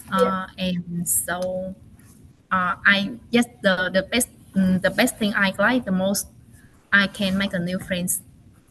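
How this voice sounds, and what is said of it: Non-native English accent. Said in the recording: “my accent is not good”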